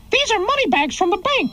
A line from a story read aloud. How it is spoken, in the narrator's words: cried Mickey